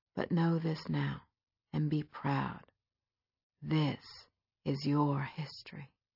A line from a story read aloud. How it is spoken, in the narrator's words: it would whisper